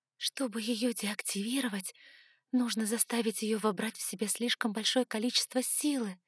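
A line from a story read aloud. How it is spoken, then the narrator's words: Whispered. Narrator (Russian): прошептала я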